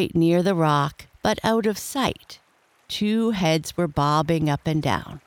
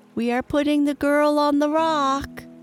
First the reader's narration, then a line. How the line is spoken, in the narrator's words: Smee called out